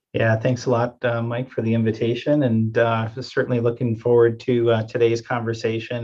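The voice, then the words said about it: Wisconsin Midwestern accent. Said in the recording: “if folks can't tell by the accent yet, you're not from DC originally. You are from, I believe, Wisconsin”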